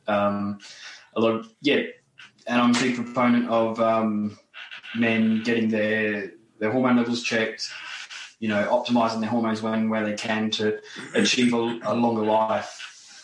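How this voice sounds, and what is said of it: Australian accent. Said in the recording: “an Aussie accent ... that Australian accent”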